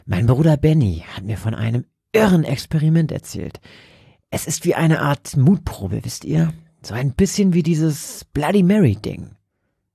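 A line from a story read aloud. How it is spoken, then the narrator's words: Whisper. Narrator (German): flüsterte Roger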